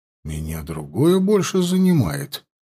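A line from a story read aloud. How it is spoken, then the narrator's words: Muttering, brother. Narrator (Russian): пробормотал его брат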